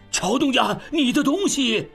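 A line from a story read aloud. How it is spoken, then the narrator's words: Shouted. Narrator (Chinese): 胡管家在后面喊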